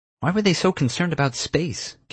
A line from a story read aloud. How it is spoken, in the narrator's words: Kira snapped